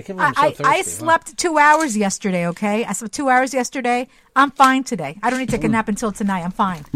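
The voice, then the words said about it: Speaks very fast. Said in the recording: “I can't believe you said that so fast.”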